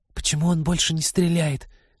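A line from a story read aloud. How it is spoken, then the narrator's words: Whispered question. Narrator (Russian): отчего-то шепотом спросила Полина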